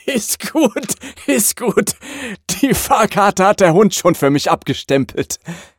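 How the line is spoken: Laughing conductor. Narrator (German): sagt der Schaffner und geht lachend weiter

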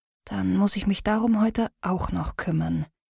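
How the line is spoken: Murmuring. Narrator (German): Sie murmelt

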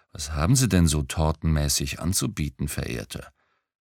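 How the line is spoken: Sweet cooing. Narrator (German): säuselte

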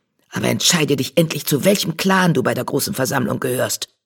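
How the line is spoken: Hiss. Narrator (German): zischte

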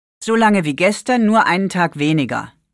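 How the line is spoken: Plain. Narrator (German): sagte Maike

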